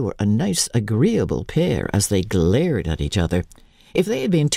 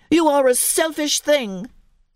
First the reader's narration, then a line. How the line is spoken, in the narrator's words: cried Colin